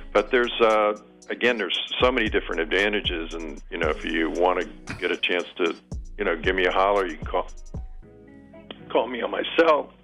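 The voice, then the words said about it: Strained, failing voice. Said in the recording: “I'm losing my voice.”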